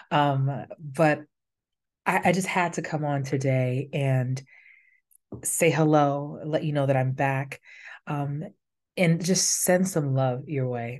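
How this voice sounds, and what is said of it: Slightly raspy voice. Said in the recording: “I'm a little raspy here in the voice, coming out of a little bit of some respiratory situations.”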